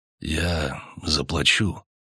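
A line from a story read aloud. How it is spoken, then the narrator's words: Quiet, hesitant. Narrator (Russian): тихо и как бы неуверенно сказал чужак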